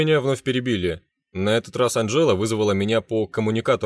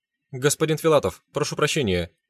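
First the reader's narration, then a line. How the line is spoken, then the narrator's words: Girl babbling nervously. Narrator (Russian): залепетала девушка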